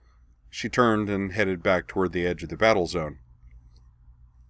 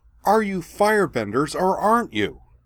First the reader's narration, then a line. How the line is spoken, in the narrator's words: shouted